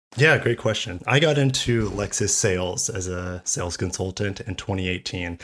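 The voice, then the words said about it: Hoarse voice from a cold. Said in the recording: “I'm just getting over a cold and my voice is deteriorating”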